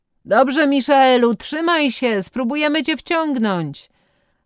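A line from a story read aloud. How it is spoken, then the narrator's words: Group calling from above. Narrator (Polish): zawołali z góry stłoczeni koledzy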